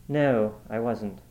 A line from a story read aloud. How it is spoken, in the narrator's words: Kingman said quite calmly